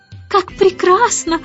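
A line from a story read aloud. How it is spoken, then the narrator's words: Joyful shout. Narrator (Russian): радостно кричала мисс Тартлетт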